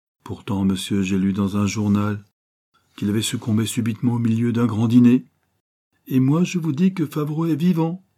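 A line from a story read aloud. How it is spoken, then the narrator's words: Ringing loud voice. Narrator (French): fit Judex d'une voix éclatante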